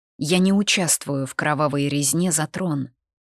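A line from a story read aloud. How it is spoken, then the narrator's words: Calm steady tone. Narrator (Russian): произнесла тем же спокойным тоном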